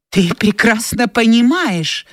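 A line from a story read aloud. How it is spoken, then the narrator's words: Exclamation. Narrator (Russian): воскликнула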